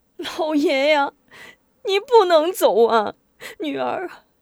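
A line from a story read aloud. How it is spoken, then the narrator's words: Weeping. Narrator (Chinese): 一时哭倒在贾怀面前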